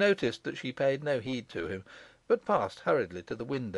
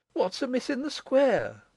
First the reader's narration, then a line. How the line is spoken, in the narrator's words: Constance exclaimed